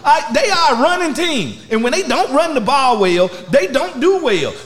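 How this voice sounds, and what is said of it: Loud, worked-up screaming. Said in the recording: “Why are you screaming at me? ... You got really worked up.”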